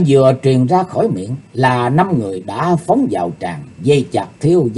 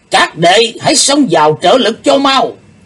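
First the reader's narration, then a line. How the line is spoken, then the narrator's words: Sudden loud shout. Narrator (Vietnamese): Đệ nhất sứ giả bỗng lớn tiếng quát to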